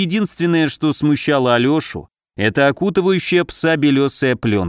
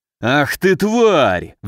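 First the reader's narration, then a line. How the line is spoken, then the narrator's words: Roared. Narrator (Russian): взревел пришедший в себя пес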